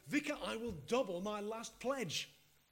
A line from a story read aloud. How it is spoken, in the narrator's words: he bellowed